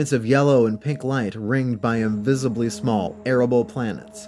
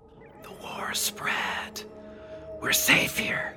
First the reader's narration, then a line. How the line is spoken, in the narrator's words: He leaned close to her and whispered